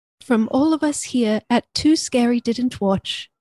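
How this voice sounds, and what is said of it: Put-on British accent. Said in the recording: “I'm gonna try to do a British accent. ... You sound like Mary Poppins.”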